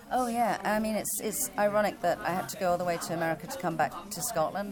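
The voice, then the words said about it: Noticeable non-American accent. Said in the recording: “despite your accent, you actually have been living in New York for a while now.”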